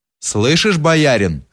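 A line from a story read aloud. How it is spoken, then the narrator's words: Plain. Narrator (Russian): сказал Кирша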